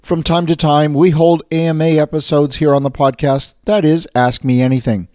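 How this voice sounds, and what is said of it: Hoarse, strained voice. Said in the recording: “yes, I'm losing my voice today”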